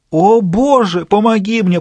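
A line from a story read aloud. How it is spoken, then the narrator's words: Anguished moaning. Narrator (Russian): простонал несчастный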